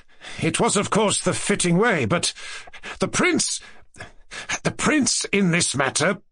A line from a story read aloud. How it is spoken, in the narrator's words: Ganya, pale and with twitching lips, articulated at last in a quivering voice